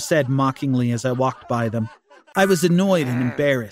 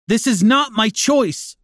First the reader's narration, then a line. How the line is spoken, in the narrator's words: yelled back